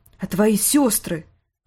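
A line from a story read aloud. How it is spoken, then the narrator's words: Sharp question. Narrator (Russian): резко спросила Кейтлин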